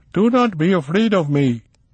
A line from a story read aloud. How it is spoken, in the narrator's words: he called out